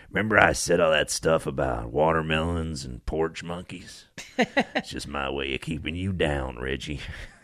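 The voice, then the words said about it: Bad Nick Nolte impression. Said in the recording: “bad Nick Nolte impression”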